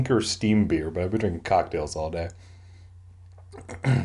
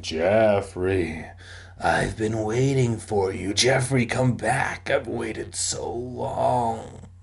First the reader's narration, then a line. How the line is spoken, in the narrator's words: The ghost moaning